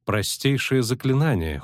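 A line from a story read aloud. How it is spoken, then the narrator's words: Cold reply, sorceress. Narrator (Russian): холодно ответила чародейка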